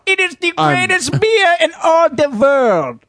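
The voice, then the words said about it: Put-on German accent. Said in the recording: “That was my German impression.”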